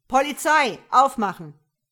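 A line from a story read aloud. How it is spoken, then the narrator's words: Bellowed. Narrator (German): brüllte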